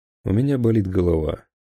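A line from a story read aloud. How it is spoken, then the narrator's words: Plain. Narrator (Russian): сказал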